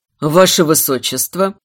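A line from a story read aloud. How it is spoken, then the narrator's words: Low, growling voice. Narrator (Russian): Низкий, немного рычащий голос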